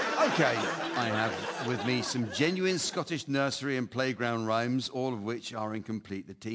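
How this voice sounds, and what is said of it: Usual voice. Nothing is said of it.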